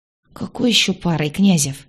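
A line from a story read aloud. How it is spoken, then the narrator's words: Muttered. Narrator (Russian): пробормотала я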